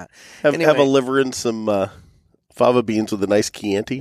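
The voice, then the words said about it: Hannibal Lecter character voice. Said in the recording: “my Hannibal impression”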